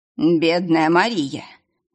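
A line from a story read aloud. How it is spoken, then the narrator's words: Sad sigh. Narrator (Russian): грустно вздохнул мистер Хейл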